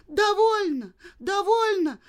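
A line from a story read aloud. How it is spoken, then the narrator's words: Terrified scream. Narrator (Russian): в ужасе закричала Женя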